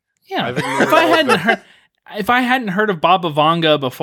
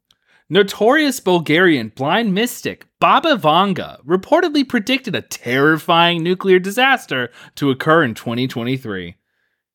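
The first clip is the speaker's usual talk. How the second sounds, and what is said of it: Imitated TikTok narrator voice. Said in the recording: “I'm gonna try to do it in my best TikTok voice.”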